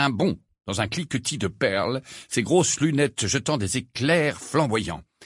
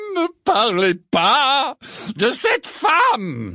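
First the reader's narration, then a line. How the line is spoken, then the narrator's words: Exclaimed. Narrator (French): s'écria le professeur Trelawney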